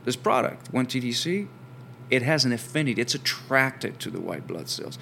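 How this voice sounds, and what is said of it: French accent. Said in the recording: “while I have an accent, I'm actually from France originally”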